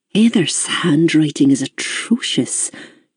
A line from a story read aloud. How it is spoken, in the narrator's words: she muttered